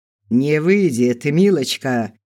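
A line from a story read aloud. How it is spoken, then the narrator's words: Deep chuckling voice. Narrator (Russian): хохотнул он басом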